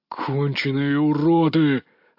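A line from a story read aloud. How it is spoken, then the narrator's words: Growling. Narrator (Russian): рычал Валерий Наумович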